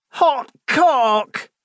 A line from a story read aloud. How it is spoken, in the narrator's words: He yelled, and pained